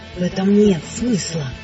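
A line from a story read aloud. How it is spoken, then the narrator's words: Distant whisper. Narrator (Russian): нашептывал голос издалека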